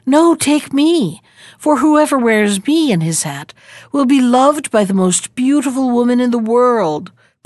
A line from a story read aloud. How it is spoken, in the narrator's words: pleaded the second